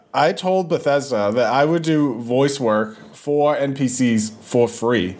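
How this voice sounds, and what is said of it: Usual voice. Nothing is said of it.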